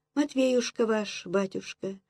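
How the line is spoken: Detached singsong voice. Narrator (Russian): пропела она отрешенным голоском

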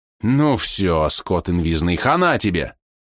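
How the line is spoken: Growling. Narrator (Russian): прорычал Ти

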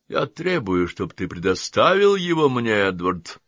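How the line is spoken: Firm, commanding. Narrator (Russian): заявил доктор Окрингтон непререкаемым тоном

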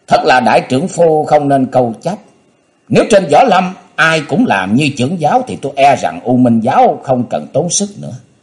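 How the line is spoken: Stern voice. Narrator (Vietnamese): Nam Cung Hầu nghiêm giọng

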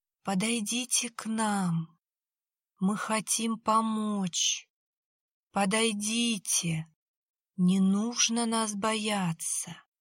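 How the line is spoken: Sluggish sleepy voices. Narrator (Russian): голоса звучали как-то вяло, сонно, будто утратив энергию и энтузиазм

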